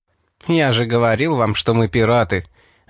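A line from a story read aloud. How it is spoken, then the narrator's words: Laughing. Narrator (Russian): засмеялся Али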